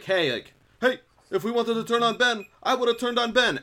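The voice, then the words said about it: Imitates another person's voice. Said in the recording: “When did Bernie Sanders get here? ... my Tony impression's not that great”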